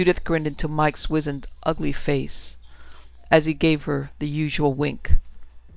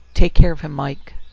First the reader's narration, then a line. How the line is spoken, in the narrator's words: kissed him on the cheek gently, because it brought her close to his ear, where she could whisper